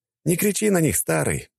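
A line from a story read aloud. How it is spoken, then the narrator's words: Sighing. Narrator (Russian): вздохнул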